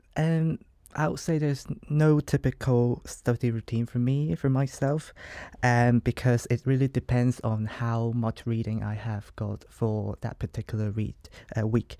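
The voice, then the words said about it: Hong Kong English accent. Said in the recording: “as you can tell by my accent, I'm not from here, and I'm from Hong Kong”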